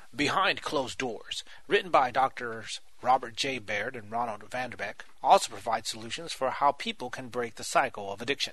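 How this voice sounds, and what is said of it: Polished radio announcer voice. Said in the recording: “That's my radio voice.”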